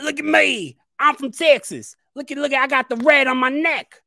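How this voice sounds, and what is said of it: Mock Texas redneck accent. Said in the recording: “big old redneck cowboy hat ... No offense to anybody from Texas. This is exactly what Vince McMahon was saying, though, with the exact same accent.”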